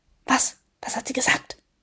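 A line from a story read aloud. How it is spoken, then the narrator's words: Hissed. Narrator (German): zischte Summer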